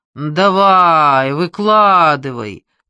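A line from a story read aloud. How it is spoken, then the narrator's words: Drawling. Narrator (Russian): протянул он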